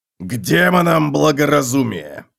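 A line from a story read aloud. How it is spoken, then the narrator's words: Growling. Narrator (Russian): прорычал Готрек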